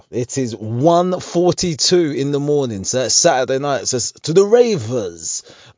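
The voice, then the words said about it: Late-night radio DJ voice. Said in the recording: “Why am I doing this in the radio voice? ... that's the voice I should have. It's the DJ voice.”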